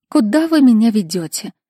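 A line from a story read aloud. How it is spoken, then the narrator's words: Weary sigh. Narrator (Russian): устало вздохнула Фира Львовна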